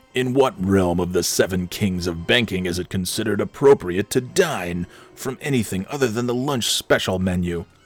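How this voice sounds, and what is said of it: Overpowering, booming character voice. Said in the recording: “in a very overpowering voice that doesn't really resemble his normal speaking voice”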